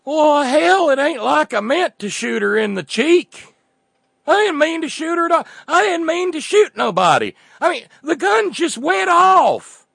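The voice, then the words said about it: Put-on hick 'Cletus' accent. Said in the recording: “wrong accent, Oregon and everything, but come on, it's a Cletus.”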